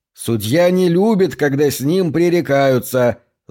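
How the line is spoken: Yelling back. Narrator (Russian): заорал он в ответ

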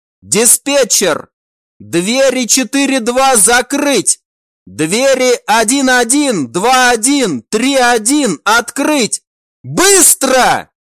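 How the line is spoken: Shout. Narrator (Russian): прокричал

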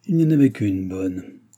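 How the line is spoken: Grumbled through teeth. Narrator (French): grommela-t-il entre ses dents

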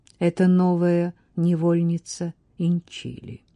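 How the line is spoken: Said calmly. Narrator (Russian): спокойно сказала Латифа

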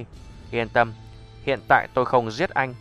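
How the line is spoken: Cold laugh. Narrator (Vietnamese): Diệp Mặc lạnh lùng cười

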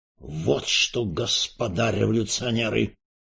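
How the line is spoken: Menacing announcement. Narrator (Russian): грозно объявил Эрос Петрович

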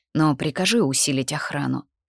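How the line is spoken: Hoarse. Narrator (Russian): произнесла хрипло

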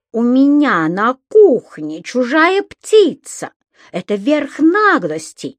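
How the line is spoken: Indignant shout. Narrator (Russian): возмущенно закричала госпожа Брюкман

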